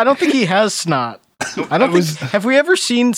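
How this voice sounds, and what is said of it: Usual voice. Nothing is said of it.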